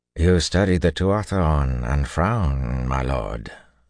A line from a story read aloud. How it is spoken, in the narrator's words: General Kiergan drawled